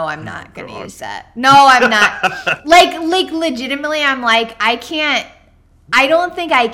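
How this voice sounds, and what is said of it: Usual voice. Nothing is said of it.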